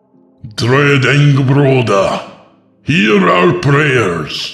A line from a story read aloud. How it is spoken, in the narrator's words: the priest shouted, no longer singing